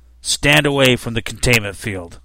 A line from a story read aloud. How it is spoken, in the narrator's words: one of them growled